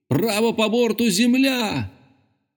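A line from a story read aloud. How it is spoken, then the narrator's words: Full-force shout. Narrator (Russian): Я крикнул изо всех сил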